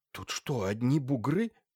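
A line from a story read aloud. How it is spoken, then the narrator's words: Quiet question. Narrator (Russian): тихо спросил Тучин Лаевского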